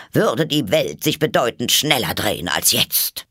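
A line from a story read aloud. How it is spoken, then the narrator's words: Hoarse grumble. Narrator (German): brummte die Herzogin mit heiserer Stimme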